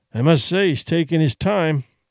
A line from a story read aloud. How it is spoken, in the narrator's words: Duncan grumbled